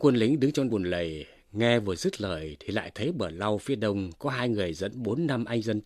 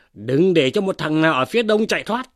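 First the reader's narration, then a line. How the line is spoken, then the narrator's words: Man shouting. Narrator (Vietnamese): một tiên sinh, miệng quát lên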